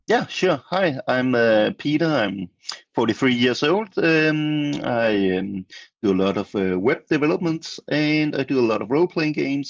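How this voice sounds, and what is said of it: Danish-accented English. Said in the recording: “I thought so on the dialect... on the English dialect. We have Swinglish and we have Danglish today”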